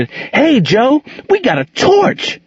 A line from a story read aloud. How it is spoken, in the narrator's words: With sudden inspiration, shouted